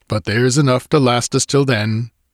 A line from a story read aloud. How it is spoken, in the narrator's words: he laughed